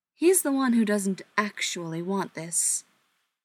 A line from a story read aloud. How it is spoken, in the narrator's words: Brendan said, his voice laced with irritation at the thought of being judged